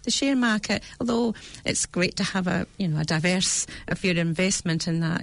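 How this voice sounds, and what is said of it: British accent. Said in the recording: “you can hear my accent from, ... Britain”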